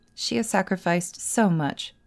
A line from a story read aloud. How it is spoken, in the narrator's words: Peter said